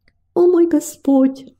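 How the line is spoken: Pleading. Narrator (Russian): взмолилась она

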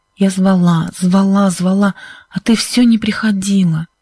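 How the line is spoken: Hoarse voice. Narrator (Russian): сказала Сьюзен хриплым голосом

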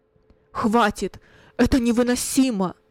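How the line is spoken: Loud, trembling voice. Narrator (Russian): произнес громко Кунерих дрожащим голосом

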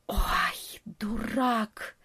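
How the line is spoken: Hushed hiss. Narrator (Russian): прошипел в полголоса летучая мышь

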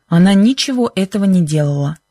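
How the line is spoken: Sharp voice. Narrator (Russian): сказал Бен резким голосом

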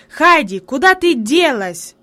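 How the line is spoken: Sudden angry shout. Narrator (Russian): вдруг сердито крикнул он

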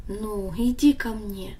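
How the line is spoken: Gentle, after long silence. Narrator (Russian): Отец долго молчал, но потом ласково сказал

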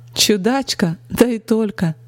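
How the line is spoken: Laughing merrily. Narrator (Russian): Весело рассмеялась она

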